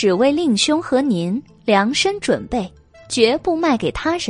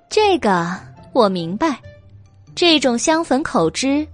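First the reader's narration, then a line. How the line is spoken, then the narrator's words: Sinister laugh. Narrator (Chinese): 白姬阴森一笑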